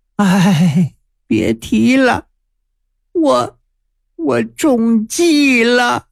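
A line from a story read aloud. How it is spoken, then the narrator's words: Long sigh. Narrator (Chinese): 王金龙长叹一声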